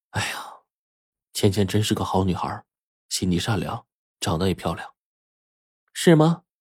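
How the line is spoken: Sighing. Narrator (Chinese): 我跟白程程叹了口气说

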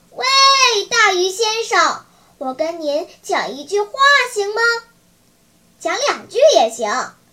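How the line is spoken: Loud shouting. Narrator (Chinese): 木偶 他高声大叫，让他听见

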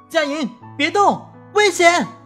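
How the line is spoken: Loud shout. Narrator (Chinese): 高喊

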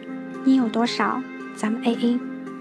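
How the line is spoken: Lowered voice. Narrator (Chinese): 可乐先生压低声

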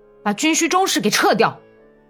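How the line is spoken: Angry shout. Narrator (Chinese): 米什卡克什沃伊生气的喊道

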